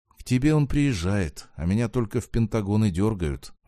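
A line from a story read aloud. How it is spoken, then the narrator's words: Sighing, brother. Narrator (Russian): вздохнул брат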